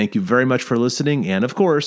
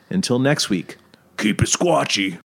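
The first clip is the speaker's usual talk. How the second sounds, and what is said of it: Imitates another person's voice. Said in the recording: “in my best Bobo imitative voice”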